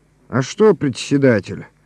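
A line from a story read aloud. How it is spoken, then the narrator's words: Calm. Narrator (Russian): говорит Коля спокойно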